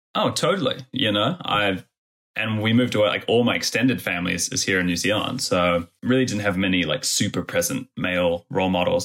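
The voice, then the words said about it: Mixed international melting-pot accent. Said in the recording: “melting pot accent ... my weird fucking mongrel voice”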